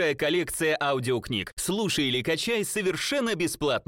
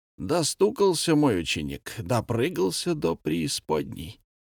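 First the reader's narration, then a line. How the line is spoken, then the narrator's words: Rough rasping. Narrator (Russian): грубо хрипел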